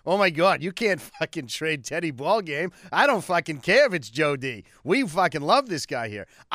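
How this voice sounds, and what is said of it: Put-on Boston accent. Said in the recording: “I'll even do the Boston voice.”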